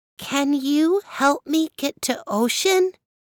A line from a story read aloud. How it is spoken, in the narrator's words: Stone had never spoken before, but gave it all possible effort, and after a few squeaks, said very clearly